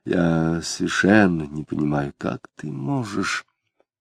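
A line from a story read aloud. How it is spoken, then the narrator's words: Quiet. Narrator (Russian): Самгин негромко сказал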